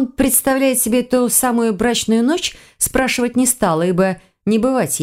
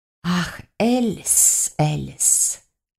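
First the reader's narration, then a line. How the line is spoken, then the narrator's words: Feigned sigh. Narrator (Russian): наигранно вздохнул змей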